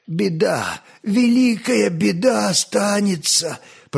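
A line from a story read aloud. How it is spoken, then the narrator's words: Faint old man's whisper. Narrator (Russian): прошептал одними побелевшими губами дед Щука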